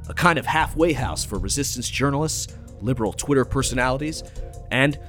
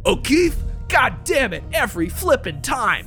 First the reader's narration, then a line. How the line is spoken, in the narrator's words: Saliza cried